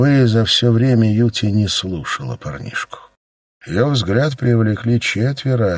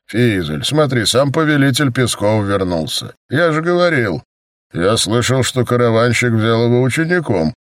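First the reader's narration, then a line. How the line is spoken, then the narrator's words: Chuckling. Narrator (Russian): хохотнул второй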